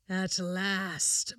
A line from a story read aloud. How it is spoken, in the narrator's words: murmured the devil with a sigh of relief